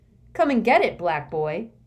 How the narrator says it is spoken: taunted

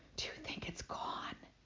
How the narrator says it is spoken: Harry whispered

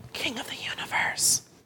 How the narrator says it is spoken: he whispered

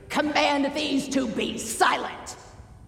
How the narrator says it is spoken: With hard faces, spat out the order

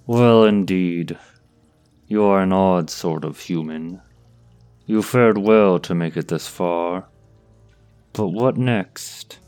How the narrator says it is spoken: Tarkus paused, letting out a long sigh as though bored

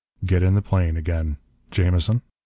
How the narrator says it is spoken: said Bell coldly

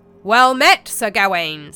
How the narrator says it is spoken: said a big, booming voice

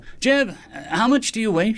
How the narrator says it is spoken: she hollered down the tunnel

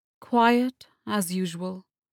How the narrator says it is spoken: Durkane replied with a sigh

